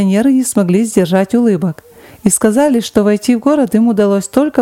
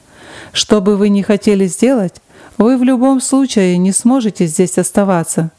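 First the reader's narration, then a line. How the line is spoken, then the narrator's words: Plain. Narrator (Russian): сказал он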